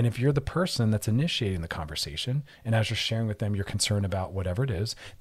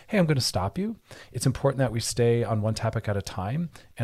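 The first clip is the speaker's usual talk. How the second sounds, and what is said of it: Soft, loving tone. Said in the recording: “hear my tone of voice. It's loving and it's soft.”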